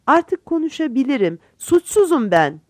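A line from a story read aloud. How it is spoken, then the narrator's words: Crying out. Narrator (Turkish): diye haykırdı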